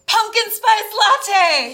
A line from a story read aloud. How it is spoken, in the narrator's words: He screamed